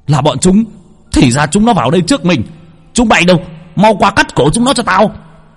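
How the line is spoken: Angry hiss, group. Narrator (Vietnamese): Bọn Thái Lan nhìn thấy thì tức giận rít lên

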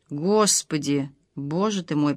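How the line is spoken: Muttering. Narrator (Russian): пробормотала Лада

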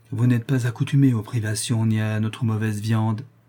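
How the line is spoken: Compassionate tone. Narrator (French): dit sœur Olivia d'un ton de compassion

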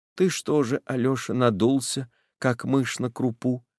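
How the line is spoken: Mother speaking softly. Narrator (Russian): сказала тихонько мать

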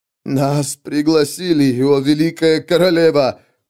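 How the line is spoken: Whining, heavy accent. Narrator (Russian): прохныкал он, говоря на северном наречии с таким акцентом, что это оскорбляло слух

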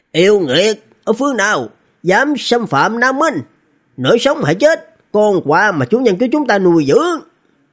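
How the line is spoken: Distant loud shout. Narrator (Vietnamese): Một cái con ong đầu người ở xa xa hét lớn

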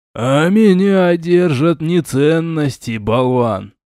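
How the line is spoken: Ghost's creaky voice. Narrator (Russian): проскрипел призрак

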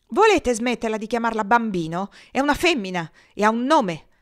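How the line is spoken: Sudden furious outburst. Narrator (Italian): sbottò Lou con furia improvvisa quanto irrazionale

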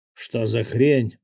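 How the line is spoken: Growling leader. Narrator (Russian): прорычал глава ягуаров

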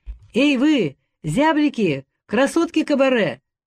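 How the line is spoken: Smiling shout. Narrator (Russian): крикнул он с улыбкой

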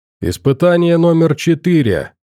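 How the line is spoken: Loud professor. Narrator (Russian): громко произнес профессор

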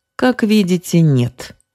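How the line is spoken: Mocking. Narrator (Russian): насмешливо ответил Конюков

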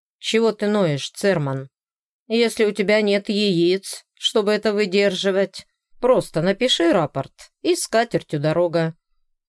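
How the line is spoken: Growling. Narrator (Russian): рыкнул на новичка лейтенант Кислицкий

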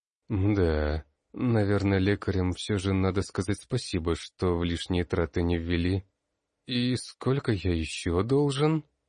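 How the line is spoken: Gloomy question. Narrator (Russian): Мрачно поинтересовался я

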